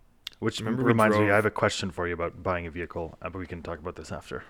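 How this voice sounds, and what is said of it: Usual voice. Nothing is said of it.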